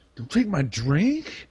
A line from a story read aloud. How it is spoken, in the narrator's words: angrily